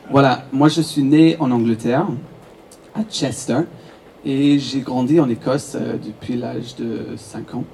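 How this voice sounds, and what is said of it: French with a British accent. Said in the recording (French): “Est-ce que vous avez entendu l'accent?”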